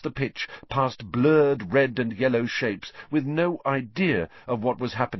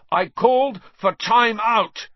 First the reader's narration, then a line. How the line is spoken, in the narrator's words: Wood roared at his team